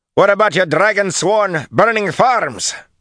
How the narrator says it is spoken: A man's frightened voice shouted from the trees

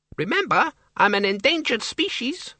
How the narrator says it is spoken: the Count squeaked

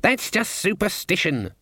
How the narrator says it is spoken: snapped Cleet

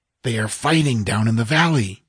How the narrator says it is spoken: cried Tiberius

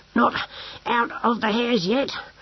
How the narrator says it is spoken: panted Brocando

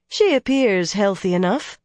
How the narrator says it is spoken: Carlinia said coolly

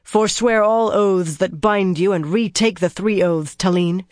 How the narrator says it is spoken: she said harshly

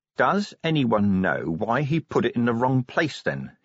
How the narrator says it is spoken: he said

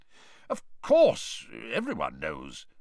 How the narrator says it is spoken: muttered Mr

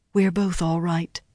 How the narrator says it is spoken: she said softly

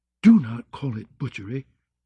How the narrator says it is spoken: Lady Maria said softly

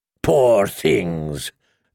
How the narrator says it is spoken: growled the slaver

